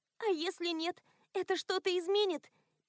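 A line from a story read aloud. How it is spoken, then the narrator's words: Squeaked. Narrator (Russian): пискнула Элоиза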